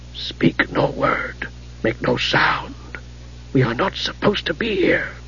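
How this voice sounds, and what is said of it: Whispering voice. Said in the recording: “said a whispering voice”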